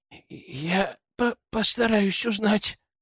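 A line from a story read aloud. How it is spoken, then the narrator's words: Hoarse croak. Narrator (Russian): прохрипел он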